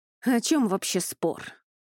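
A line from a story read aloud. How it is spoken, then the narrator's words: Irritated sigh. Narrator (Russian): раздраженно вздохнул Луциан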